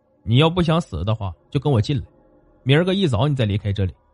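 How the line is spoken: Ice-cold voice. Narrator (Chinese): 声音冰冷的说

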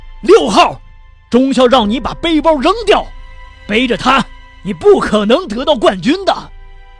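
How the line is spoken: Soldiers shouting. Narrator (Chinese): 沿途的士兵朝着沃伦斯基大喊道

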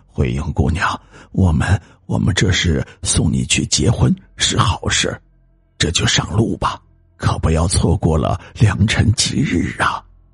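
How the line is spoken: Murmuring. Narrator (Chinese): 喃喃的念道

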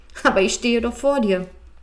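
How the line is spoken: Laughing. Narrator (German): Das Einhorn lachte und sagte

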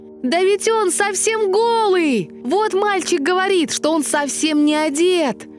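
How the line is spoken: Crowd shouting. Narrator (Russian): Закричал, наконец, весь народ

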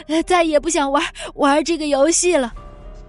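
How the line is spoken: Panting. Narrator (Chinese): 彼得喘着气说

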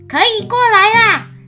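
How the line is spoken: Loud shout. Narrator (Chinese): 悟空 大声叫道

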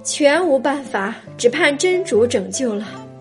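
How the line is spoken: Despairing sigh. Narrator (Chinese): 叹道

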